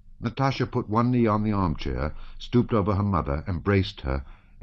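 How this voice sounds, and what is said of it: Usual voice. Nothing is said of it.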